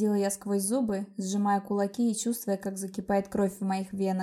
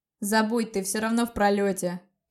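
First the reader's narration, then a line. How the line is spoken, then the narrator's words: Loud. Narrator (Russian): громко произнес он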